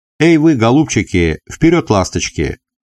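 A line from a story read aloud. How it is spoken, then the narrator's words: Affectionate shout. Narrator (Russian): ласково прикрикнул ямщик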